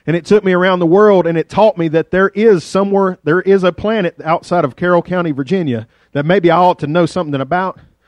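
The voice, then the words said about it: Rural Virginia hillbilly accent. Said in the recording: “Other people from other parts of Virginia made fun of my accent. That's how, how y'all think I'm hillbilly now.”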